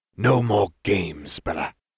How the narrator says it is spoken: Malfoy hissed

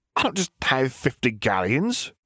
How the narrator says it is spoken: the shopkeeper sputtered

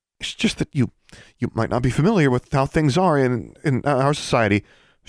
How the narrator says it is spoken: stammered

